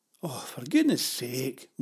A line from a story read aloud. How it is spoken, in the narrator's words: moaned Pavel